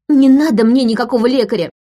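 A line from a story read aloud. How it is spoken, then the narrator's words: Shouting. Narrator (Russian): выкрикнула она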